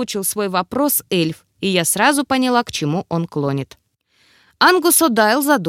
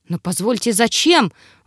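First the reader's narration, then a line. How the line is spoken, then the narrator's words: Shocked breathless exhale. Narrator (Russian): выдохнул потрясенный ректор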